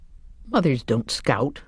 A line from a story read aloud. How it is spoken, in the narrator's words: she said scornfully, like an aunt